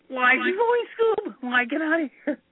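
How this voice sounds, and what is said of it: Shaggy cartoon character voice impression. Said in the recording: “do a killer Shaggy impression from Scooby-Doo ... how great an impression”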